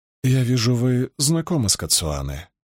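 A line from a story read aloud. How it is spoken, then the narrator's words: Suddenly hoarse voice. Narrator (Russian): внезапно охрипшим голосом сказала она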